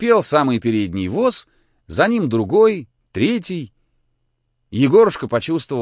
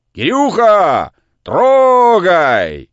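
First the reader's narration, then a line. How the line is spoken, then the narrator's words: Distant shout. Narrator (Russian): кто-то крикнул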